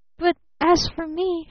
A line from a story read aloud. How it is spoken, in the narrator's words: gasped